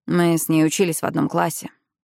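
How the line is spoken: Quiet. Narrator (Russian): тихо проговорил Викинг

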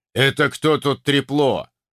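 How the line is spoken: Deep bass voice. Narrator (Russian): пробасил вышеупомянутый слон

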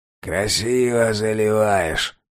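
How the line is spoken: Skeptical snort. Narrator (Russian): хмыкнул Владдух

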